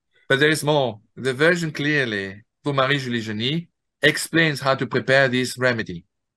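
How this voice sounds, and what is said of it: French-accented English. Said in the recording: “do forgive my English pronunciation ... I'm being a Frenchman ... I love your accent.”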